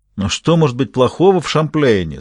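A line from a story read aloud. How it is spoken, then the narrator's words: Plain. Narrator (Russian): спросил Шевре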